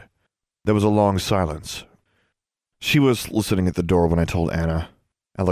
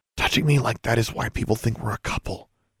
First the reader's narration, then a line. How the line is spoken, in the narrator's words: she whispered